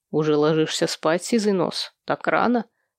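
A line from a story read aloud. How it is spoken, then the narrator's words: Quiet reply. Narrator (Russian): тихо отозвался он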